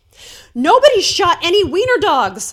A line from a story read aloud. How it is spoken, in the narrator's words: blurted out, trying to regain some measure of control